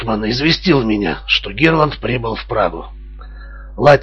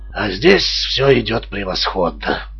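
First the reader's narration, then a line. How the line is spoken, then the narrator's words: Satisfied tone. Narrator (Russian): продолжал Дори удовлетворенным тоном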